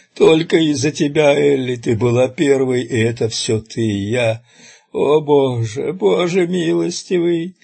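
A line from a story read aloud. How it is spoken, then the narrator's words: Dissolving into sobs. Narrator (Russian): Слова растворились в этом пароксизме неразборчивых всхлипов, обернувшихся потоком слез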